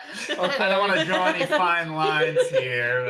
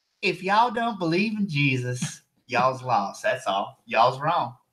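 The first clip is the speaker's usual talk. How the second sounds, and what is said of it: Put-on rural North Carolina accent. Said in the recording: “Is that your Kentucky accent? ... North Carolina right there. ... she's from like the west, southwest corner of North Carolina”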